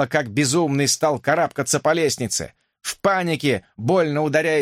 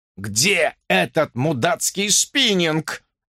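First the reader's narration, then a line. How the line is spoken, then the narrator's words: Growled. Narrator (Russian): прорычал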